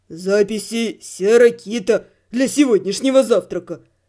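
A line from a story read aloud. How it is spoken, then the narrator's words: Man's deep bass. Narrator (Russian): пробасил мужик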